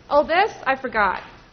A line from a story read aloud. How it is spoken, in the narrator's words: she says a little too loudly